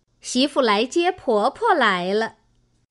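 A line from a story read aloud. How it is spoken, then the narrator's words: Laughing. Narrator (Chinese): 凤姐儿笑道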